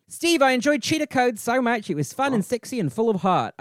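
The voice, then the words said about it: Put-on Australian accent, sounds New Zealand. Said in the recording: “I probably sound more New Zealand-y. My Australian always sounds New Zealand-y.”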